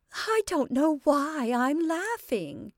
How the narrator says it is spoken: The long, soft peal sounded, even while she cried

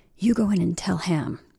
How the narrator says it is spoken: whispered Johnson to Michael

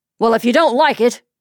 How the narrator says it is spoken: he snarled

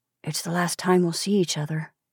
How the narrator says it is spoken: he whispered

